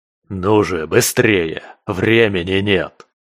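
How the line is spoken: Hoarse urging voice. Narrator (Russian): Стал подгонять хриплый голос

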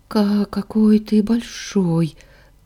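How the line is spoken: Trembling voice. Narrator (Russian): Дрожащим голосом выдала

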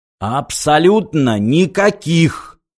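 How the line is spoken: Clipped, furious. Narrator (Russian): отчеканил мистер Проссер и в ярости

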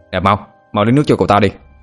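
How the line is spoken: Chubby boy shouting order. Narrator (Vietnamese): Cậu pháp sư mập mạp liền quát lên

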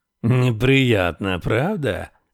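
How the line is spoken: Nasal voice. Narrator (Russian): спросил он гнусавым голосом

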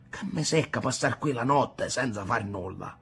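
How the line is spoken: Grumbling. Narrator (Italian): brontolò Rocco

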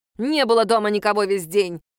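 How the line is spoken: Angry reply. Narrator (Russian): злобно ответила Лена

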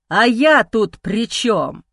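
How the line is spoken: Animal-like growl. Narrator (Russian): Из горла вырывается звериное рычание

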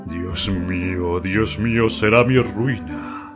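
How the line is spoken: Dragon's moan. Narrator (Spanish): gimió el dragón

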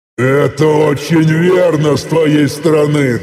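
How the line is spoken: Booming, laughing loudly. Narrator (Russian): Рассмеявшись в голос на всю пещеру, мощно прогрохотал я

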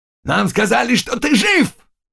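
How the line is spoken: Shouting. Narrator (Russian): кричал Заглоба

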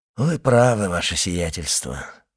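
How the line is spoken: Sighing. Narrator (Russian): вздохнул Бертуччо

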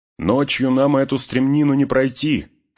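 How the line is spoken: Shout. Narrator (Russian): крикнул Барамир

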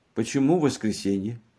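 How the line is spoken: Indifferent question. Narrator (Russian): спросила все тем же равнодушным голосом

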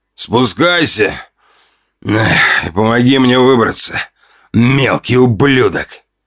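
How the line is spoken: Growled from the darkness. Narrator (Russian): Прорычали из темноты

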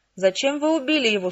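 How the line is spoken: Whimpering. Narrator (Russian): скулил он

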